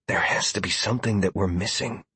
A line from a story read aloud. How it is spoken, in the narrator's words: I whispered